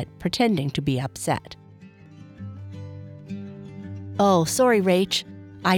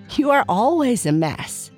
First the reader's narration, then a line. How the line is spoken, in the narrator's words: she said, laughing